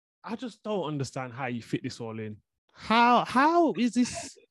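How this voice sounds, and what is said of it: Voice rising to high pitch. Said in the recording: “my voice is going high now”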